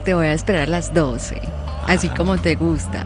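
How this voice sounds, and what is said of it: Paisa Colombian accent. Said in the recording (Spanish): “ese acento paisa jode a más de uno ... Sacó la carta del acento”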